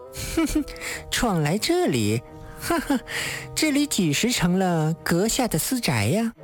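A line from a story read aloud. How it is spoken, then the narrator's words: Wanton mocking laugh. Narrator (Chinese): 女子浪虐笑道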